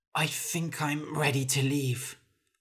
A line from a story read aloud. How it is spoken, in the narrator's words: Hulla said hoarsely